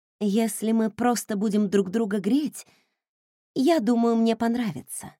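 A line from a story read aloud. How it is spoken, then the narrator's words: Timid-sounding lie. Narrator (Russian): солгала я, стараясь, чтобы мой голос звучал робко и не выдал моего убийственного настроя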